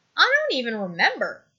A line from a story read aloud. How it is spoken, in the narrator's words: says happily, barbecue sauce dripping down her chin